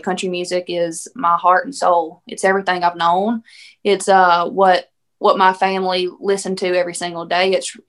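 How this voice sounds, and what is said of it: Thick Southern country accent. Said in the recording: “the way I talk, the way I sound, this country thick accent”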